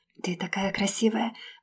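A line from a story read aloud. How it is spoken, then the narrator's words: Whisper. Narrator (Russian): прошептал он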